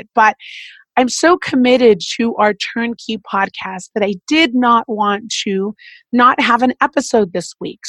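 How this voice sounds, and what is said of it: Voice sounding sick. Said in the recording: “As you can hear in my voice, I am a little under the weather.”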